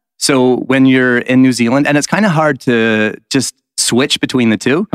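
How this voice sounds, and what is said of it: Put-on American accent, fairly good. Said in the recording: “Talk in an American accent for me. ... Yeah, that's kind of pretty good.”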